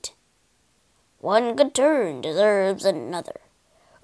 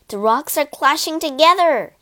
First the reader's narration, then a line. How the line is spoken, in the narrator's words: he cried